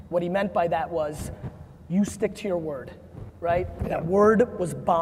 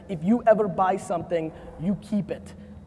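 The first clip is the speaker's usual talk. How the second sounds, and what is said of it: Heavy Russian accent imitation. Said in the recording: “Heavy Russian accent.”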